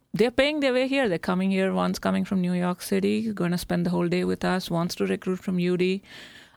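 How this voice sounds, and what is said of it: Non-local accent. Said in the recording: “you can tell from my accent, I'm not from here”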